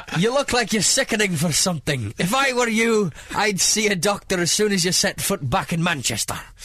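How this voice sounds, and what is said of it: Put-on Scottish accent slipping Irish. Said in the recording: “That was Irish, that end of it... doing an impression of Bill Shankly... you're practically from Scotland. It should be easy for you.”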